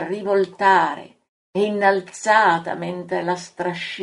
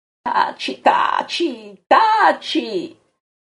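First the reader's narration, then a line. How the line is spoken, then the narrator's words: Shouts. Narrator (Italian): urla Pietro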